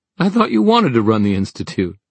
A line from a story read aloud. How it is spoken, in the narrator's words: Helen laughed